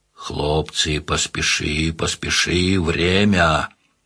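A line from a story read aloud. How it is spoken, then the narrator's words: Quiet urging. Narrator (Russian): тихо погонял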